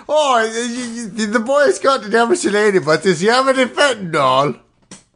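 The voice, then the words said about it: Put-on Irish accent. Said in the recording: “this accent you're doing is offensive ... I'm also part Irish”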